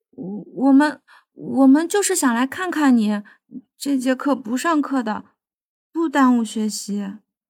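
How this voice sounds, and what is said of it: Soft, timid, faint girl's voice. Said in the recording (Chinese): “小声解释...细弱的声音”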